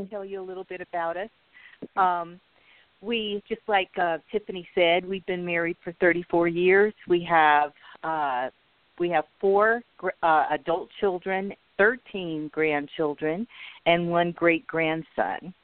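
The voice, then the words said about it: Slightly raspy voice. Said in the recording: “My voice is a little raspy today. I've been going through changes with allergies, but forgive me if I start coughing.”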